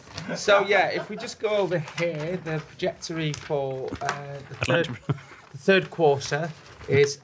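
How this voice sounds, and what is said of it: Posh accent impression. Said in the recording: “You said quarter posh again. ... I was doing an impression.”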